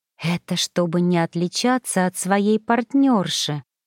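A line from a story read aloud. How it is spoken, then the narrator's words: Whisper. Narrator (Russian): прошептала Магда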